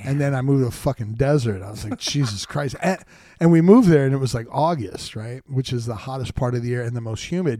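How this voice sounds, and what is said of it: Brooklyn accent. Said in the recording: “I got a Brooklyn accent”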